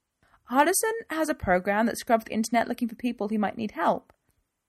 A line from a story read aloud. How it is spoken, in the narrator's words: piped up Laura